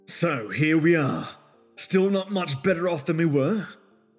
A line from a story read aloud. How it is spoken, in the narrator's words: growled Irish